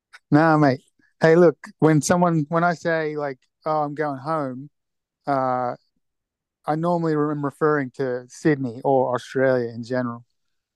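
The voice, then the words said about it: Australian accent. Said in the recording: “First home, Sydney, Australia. I can't tell by the accent.”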